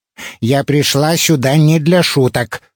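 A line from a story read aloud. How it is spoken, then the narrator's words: Stern remark. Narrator (Russian): строго заметила сестра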